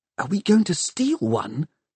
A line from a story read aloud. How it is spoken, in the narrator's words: Tom whispered